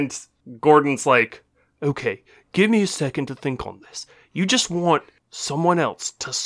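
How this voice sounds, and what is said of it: Usual voice. Nothing is said of it.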